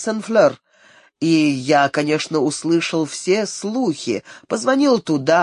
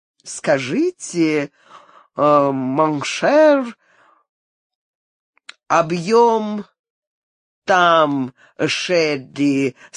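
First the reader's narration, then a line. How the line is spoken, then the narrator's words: Gloomy, then laughing. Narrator (Russian): сказал Вильям угрюмо, а потом засмеялся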